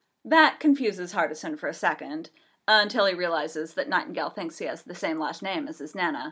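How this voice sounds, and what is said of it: Usual voice. Nothing is said of it.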